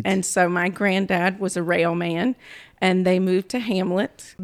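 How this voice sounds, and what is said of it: North Carolina country accent. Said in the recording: “That is where I think I picked up this accent ... Nobody else in my family sounds like me ... that little country accent”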